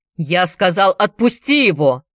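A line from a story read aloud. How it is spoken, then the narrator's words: Thundering. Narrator (Russian): прогремел Дэвид Купер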